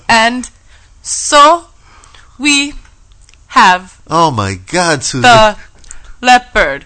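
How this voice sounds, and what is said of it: Slow Brazilian accent with pauses. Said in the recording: “a Brazilian ... Accent ... he pauses after every word he says ... he's a slow talker”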